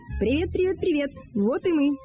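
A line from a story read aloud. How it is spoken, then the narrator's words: Cheerful squeak. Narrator (Russian): весело пропищал он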